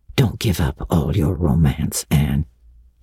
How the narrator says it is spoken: he whispered shyly

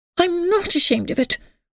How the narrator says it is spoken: cried Emily

